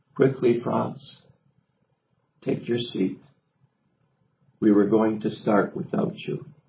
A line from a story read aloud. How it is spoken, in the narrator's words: Hamel calmly looked at him and said